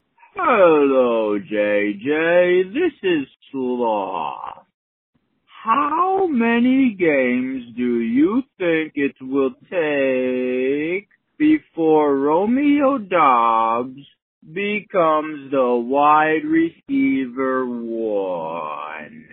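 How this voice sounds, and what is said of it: Very slow put-on character voice. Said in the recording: “Fantastic accent there ... Definitely a longer voicemail than it needed to be, since we were speaking so slowly.”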